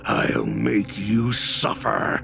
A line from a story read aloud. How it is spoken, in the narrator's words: he growls